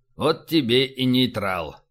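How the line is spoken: Commander muttering. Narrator (Russian): пробормотал командир

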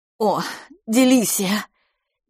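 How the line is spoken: Sobbing. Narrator (Russian): мисс Дюбари всхлипнула

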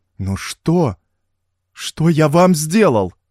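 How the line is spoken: Frightened hysterical exclamation. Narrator (Russian): испуганно воскликнул Смертин, срываясь в истерику

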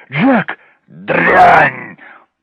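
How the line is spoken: Hiss. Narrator (Russian): прошипел он

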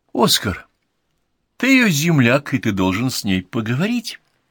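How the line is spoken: Joyful. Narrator (Russian): предложил радостно

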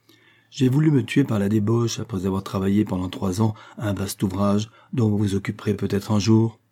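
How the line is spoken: Plain. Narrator (French): lui répondit Raphaël

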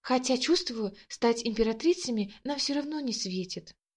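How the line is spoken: Girl whispering, then giggling. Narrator (Russian): шепотом добавила девушка и хихикнула

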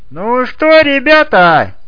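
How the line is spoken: Cheerful shout. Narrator (Russian): весело выкрикнул комментатор

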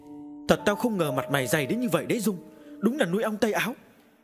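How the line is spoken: Hissing woman. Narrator (Vietnamese): Cô rít lên

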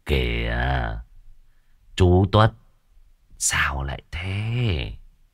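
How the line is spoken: Gentle, soft-spoken. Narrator (Vietnamese): Lão Thú Tân nhẹ nhàng lên tiếng

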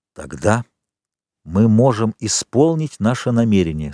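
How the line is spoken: Plain. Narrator (Russian): сказал аббат

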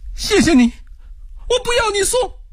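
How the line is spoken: Trembling, running. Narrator (Chinese): 罗兰一面跑一面颤声说道

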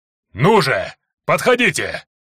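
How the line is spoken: Roar. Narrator (Russian): Быколюд взревел

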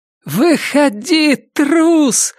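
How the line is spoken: Shouted. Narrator (Russian): закричала охотница

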